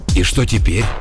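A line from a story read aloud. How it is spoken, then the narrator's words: Slightly hoarse, nervous voice. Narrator (Russian): Голос у Бегера от волнения сделался чуть хрипловатым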